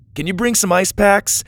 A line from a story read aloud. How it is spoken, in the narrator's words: Doug shouted at the speaker